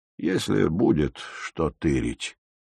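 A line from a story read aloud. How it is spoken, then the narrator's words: Sad sigh. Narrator (Russian): печально вздохнул зеленщик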